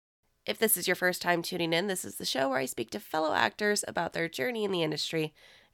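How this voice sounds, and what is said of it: Slightly hoarse, strained voice. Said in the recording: “I'm slightly losing my voice”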